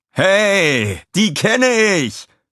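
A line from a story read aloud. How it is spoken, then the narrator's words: Excited call. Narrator (German): rief Walter dem Sensenmann zu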